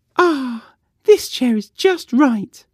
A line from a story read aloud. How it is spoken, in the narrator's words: she sighed